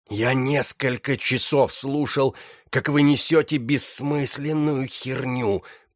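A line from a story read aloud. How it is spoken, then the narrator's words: Hissing. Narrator (Russian): прошипел он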